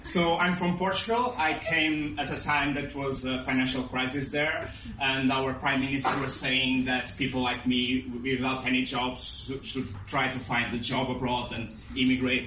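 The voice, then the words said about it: Non-native foreign accent. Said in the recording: “with my accent, I'm not from around here”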